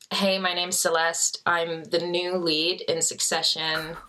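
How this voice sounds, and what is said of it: Put-on American accent. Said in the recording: “Can you do American accent though? ... Not very good ... That's really good, yeah.”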